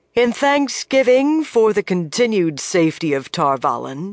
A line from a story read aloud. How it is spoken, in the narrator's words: she said, her voice carrying easily to everyone